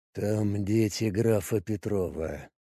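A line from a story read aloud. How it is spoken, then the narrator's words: Quiet. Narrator (Russian): сказал он тихо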